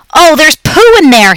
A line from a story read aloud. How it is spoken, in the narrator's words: he screamed